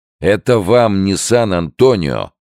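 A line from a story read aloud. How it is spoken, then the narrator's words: Police chief snapping. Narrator (Russian): огрызнулся начальник полиции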